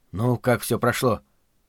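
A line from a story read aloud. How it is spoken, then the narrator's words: Whisper. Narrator (Russian): прошептал я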